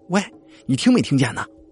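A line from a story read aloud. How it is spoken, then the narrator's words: Irritated loud shout. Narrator (Chinese): 心情烦躁，就大声吵吵了一句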